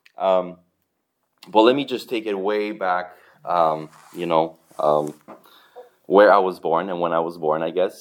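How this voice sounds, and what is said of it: Romanian Eastern European accent. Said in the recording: “I was born in Eastern Europe. You can probably tell by the accent. ... Romania, to be more precise.”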